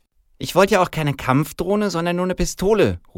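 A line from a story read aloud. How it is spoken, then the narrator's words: Girl calling out snippily. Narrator (German): ruft das Mädchen schnippisch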